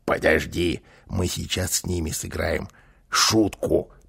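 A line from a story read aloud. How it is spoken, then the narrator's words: Whispering. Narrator (Russian): прошептал он малышу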